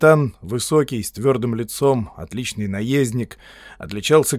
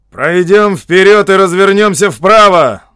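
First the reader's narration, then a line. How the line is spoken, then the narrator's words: Captain shouting. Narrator (Russian): крикнул капитан Колкхауну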